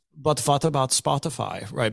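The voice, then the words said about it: Put-on European accent. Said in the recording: “pick a European accent”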